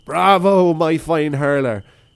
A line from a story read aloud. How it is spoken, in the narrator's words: Seamus unwittingly shouted